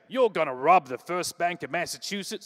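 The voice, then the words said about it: Put-on accent in quoted line. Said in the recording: “Sorry for the accent.”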